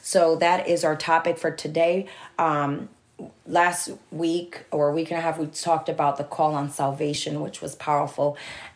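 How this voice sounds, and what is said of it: Raspy, slightly sick voice. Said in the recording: “Sorry for my raspy voice. These past couple days, I've been a little under the weather.”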